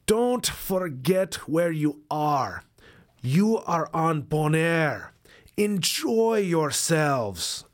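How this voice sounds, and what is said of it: Put-on Caribbean accent. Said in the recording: “I'm going to do my best to do a Caribbean accent.”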